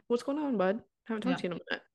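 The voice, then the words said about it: Put-on Irish accent. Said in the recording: “Why are you speaking in an Irish accent?”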